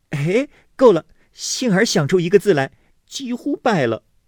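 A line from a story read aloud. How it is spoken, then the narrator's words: Laughing. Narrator (Chinese): 笑道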